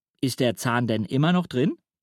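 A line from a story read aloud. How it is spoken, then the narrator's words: Plain. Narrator (German): fragt Papa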